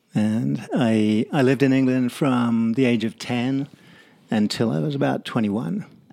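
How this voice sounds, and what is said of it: English accent. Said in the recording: “you've got a bit of an accent ... My accent is English, though.”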